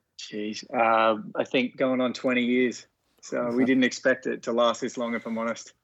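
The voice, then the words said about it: Australian accent with American twang. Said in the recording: “There's a bit of a twang there. I think, you know, there's a bit of an American twang.”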